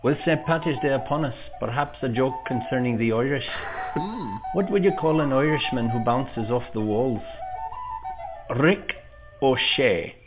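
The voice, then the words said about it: Put-on Irish accent. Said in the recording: “The accent, magnificent. ... the accent was on point”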